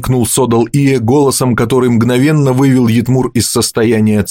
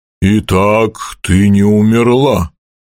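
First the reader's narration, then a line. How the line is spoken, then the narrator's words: Rough voice. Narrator (Russian): грубо сказал тот, которого несут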